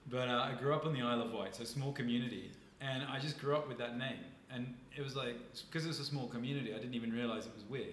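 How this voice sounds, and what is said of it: Mixed English and Canadian accent. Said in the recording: “my accent's confused. I moved to Canada, so I've got this like hybridized English Canadian accent.”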